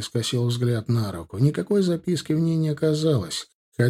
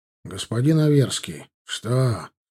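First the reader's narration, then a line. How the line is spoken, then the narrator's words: Gruff mutter. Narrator (Russian): буркнул проходящий мимо маг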